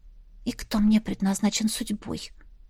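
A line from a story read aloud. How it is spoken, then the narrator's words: Whispered. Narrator (Russian): шепнула Настя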